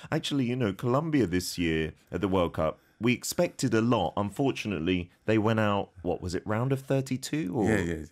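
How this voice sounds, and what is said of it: English accent. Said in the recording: “You might tell from my accent, my home country is the UK, is England.”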